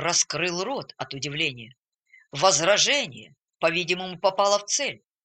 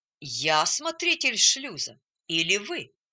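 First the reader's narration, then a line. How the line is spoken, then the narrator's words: Calm objection. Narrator (Russian): спокойно возразил атакованный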